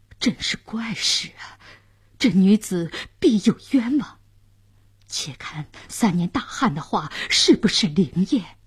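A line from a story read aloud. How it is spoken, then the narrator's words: Surprised muttering. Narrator (Chinese): 监斩官、刽子手也惊讶地嘟囔着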